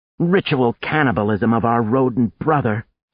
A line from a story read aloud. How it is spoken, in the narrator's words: she scoffed as she ate her shred